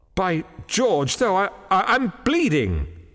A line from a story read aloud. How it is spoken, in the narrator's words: he exclaimed